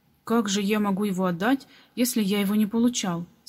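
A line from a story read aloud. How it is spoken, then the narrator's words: Angry question. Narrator (Russian): сердито спросил Том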